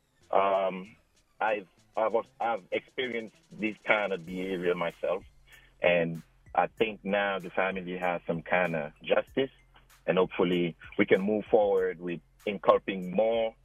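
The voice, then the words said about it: African-accented English. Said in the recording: “I'm sorry for my accent. I'm from Africa.”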